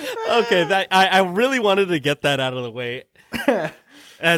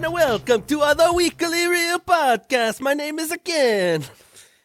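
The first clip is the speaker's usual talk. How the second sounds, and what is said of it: Bad Mario-style Italian accent. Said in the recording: “my bad Mario accent ... should I start it with the Mario accent?”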